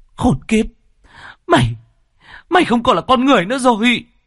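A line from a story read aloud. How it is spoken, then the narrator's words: Woman's trembling frenzied outburst. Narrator (Vietnamese): Ả đàn bà run rẩy vì kích động, càng lúc càng trở nên điên dại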